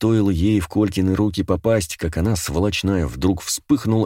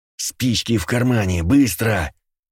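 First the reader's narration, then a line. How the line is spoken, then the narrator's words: Angry hissing. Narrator (Russian): Зло прошипел Ворона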